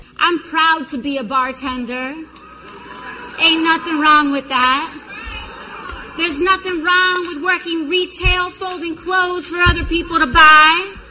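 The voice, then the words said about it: Switches into a put-on accent. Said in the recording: “They change the accent of their voice ... in her normal voice and then her accent.”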